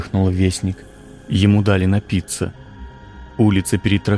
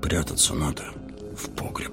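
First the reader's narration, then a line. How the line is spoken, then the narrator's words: Frightened mutter. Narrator (Russian): бормотал бледными губами лавочник, Регаларов сосед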